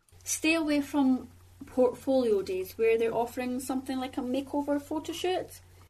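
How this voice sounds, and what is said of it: Heavy Scottish accent. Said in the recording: “she's Scottish, right? ... she's got this really heavy accent.”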